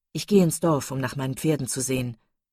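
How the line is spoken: Plain. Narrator (German): sagte er

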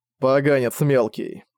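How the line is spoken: Grumble. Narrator (Russian): пробурчал Дэймен

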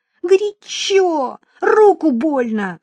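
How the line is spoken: Boy crying out. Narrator (Russian): вскрикнул мальчик

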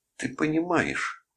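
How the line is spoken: Exclaiming. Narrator (Russian): воскликнула она

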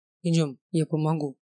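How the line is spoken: Quiet speech. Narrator (Russian): тихо проговорил Максимилиан

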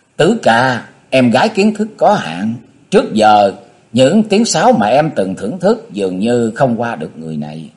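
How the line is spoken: Giggling girl. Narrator (Vietnamese): Thiếu nữ liếc nhìn Nhạc Chi Dương cười khúc khích

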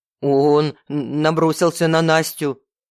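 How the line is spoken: Stammering. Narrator (Russian): заикаясь, произнес Ильвер

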